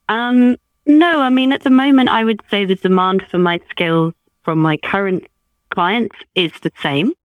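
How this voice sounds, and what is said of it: British accent. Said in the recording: “you can probably tell from my accent, I'm in the UK”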